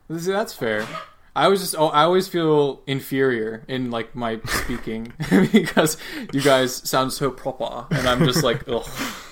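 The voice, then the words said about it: American accent. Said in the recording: “my accent because I think the American accent sucks”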